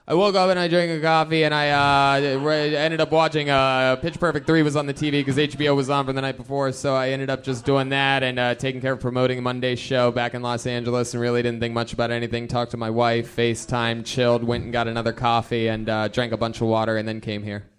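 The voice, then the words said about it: Fast, monotone, words run together. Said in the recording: “So I talk fast and I'm monotone?... You squish all the words together... There's no commas”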